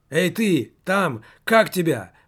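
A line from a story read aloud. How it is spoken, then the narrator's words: Shouted downward. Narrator (Russian): прокричал вниз немаркетинг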